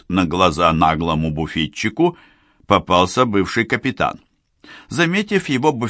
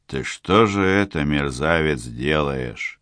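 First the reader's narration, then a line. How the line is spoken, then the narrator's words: Quiet, almost tender menace. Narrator (Russian): Тихо и как бы даже ласково начал Васнецов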